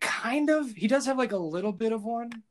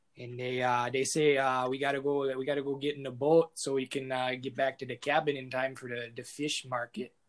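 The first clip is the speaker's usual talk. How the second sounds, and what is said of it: Exaggerated Minnesotan accent. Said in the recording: “the over exaggeration of Minnesotan accent sounds a little bit like this”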